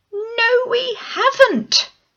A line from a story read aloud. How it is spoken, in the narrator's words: we both shouted